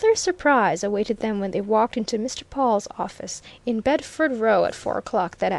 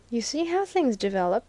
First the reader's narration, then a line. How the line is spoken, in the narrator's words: he murmured